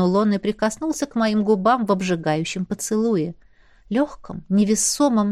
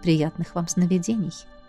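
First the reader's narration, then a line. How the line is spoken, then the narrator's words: Soft, smiling. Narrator (Russian): мягко улыбнулся он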